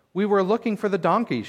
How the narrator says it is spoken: Shaul replied

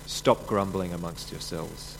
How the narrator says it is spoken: Jesus answered

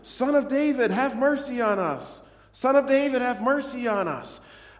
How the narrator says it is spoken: two blind men, shouting

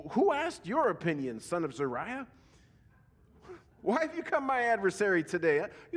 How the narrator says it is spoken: King David exclaimed

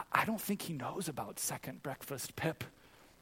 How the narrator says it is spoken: Mary turns to Pippin and whispers to him

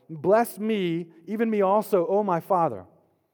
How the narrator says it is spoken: As soon as Esau heard the words of his father, he cried out with an exceedingly great and bitter cry and said to his father

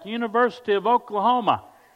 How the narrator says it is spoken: He yelled back

